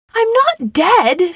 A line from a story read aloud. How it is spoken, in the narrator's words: screamed the ballerina